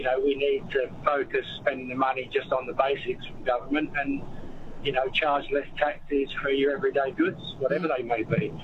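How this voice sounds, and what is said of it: Slight foreign accent. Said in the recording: “I could hear a bit of an accent. You come from somewhere north of us? ... just about 13,000 kilometres north”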